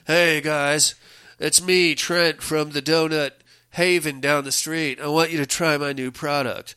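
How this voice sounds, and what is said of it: Captain Jack Sparrow impression. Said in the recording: “he's doing his best Captain Jack Sparrow impersonation.”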